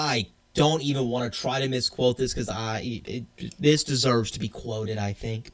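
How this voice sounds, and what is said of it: Usual voice. Nothing is said of it.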